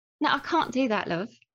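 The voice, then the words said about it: Put-on London British accent. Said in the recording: “Give me a bit of the British accent ... That's not bad. I can recognize that's kind of London. That's not too bad.”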